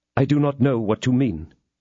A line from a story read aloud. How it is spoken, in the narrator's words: replied Felton calmly